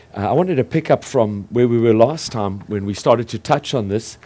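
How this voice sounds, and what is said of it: Voice sounds a little off. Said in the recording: “my voice is a little funny”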